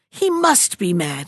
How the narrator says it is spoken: he cried

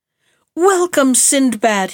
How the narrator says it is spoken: he cried

